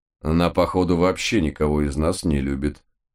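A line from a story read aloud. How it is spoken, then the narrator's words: Gloomy. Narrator (Russian): мрачно подтвердил я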